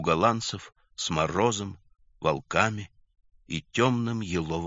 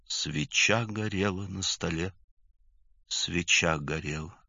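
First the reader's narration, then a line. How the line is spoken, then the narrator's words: Whispered to himself. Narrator (Russian): шептал Юра про себя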